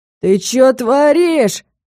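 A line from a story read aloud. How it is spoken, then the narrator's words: Shout. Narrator (Russian): крикнул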